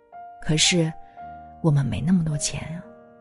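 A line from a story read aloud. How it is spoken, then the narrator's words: Sighing woman. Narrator (Chinese): 阿姨叹了口气，对医生说道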